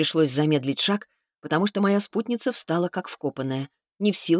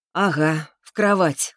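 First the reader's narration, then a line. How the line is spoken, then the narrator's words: Short laugh. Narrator (Russian): хохотнула я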